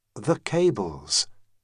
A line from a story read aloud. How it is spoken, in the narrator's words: Cento said, calmly, overcome